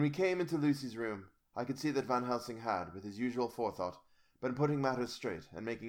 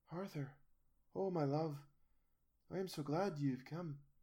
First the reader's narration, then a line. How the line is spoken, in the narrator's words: whispered softly